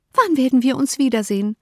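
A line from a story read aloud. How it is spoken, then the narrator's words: Called out. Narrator (German): rief sie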